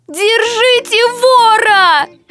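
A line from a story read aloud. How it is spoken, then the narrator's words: Sudden shout. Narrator (Russian): Вдруг закричала Софья Андреевна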